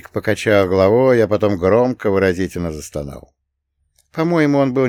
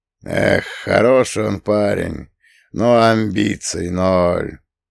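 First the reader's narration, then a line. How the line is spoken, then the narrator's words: Thoughtful drawl. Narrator (Russian): задумчиво протянул Фреда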